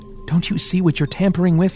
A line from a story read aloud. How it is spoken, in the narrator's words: Rand pleaded with the lab technicians